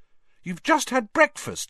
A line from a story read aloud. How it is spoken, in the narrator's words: said Hermione irritably